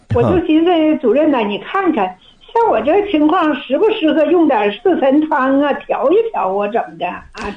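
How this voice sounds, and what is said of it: Northern Chinese accent. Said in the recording (Chinese): “听你的口音呢，是北方人 ... 我是黑龙江的”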